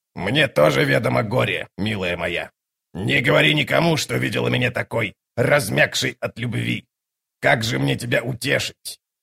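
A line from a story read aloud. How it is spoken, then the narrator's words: Hoarse rasp. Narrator (Russian): Мхиби прохрипела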